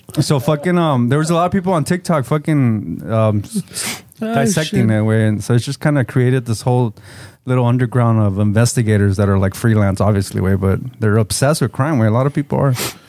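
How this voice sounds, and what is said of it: Speaks with a noticeable accent. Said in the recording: “a little fucking accent change ... I said Caesar, with my accent ... You're making fun of my accent.”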